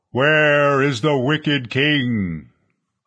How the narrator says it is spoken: a voice thundered

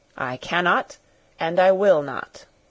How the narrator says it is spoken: he replied solemnly

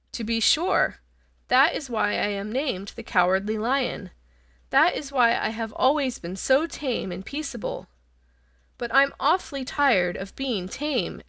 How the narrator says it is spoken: added the lion, with a sigh

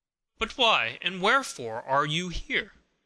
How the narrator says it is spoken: exclaimed her astonished brother

